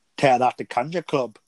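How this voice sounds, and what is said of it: Poor imitation of Scottish accent. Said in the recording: “He says it like a Scottish accent. I mean, my accent's horrible”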